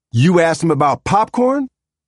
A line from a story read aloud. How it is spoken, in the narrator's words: Talking loudly enough for Mr